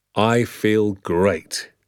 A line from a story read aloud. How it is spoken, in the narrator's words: said